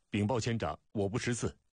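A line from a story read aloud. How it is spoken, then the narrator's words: Loud shout. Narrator (Chinese): 甲士高声喊道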